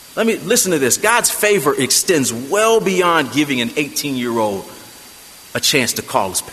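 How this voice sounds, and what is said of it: Usual voice. Nothing is said of it.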